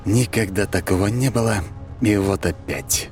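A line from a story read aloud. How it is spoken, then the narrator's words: Mumbling, trying to relax. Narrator (Russian): пробормотал я, стараясь расслабиться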